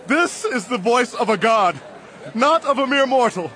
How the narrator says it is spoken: They shouted

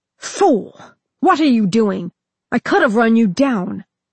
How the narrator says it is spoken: Chagrined, worried, and furious at being made so, Arthas snapped

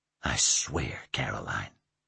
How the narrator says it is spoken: he whispered now, his voice breaking

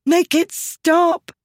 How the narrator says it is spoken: she screamed

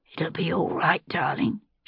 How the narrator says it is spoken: she said, her voice ragged and deep from screaming

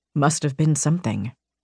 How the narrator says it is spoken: Rain murmured

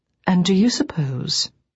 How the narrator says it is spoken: I said this gently, without a hint of sarcasm

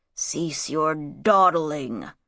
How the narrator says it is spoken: growled Shadzar

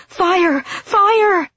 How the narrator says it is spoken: the screaming turned frantic

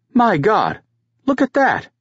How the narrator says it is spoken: Finberg exclaimed

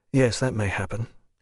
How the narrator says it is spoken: he said quietly

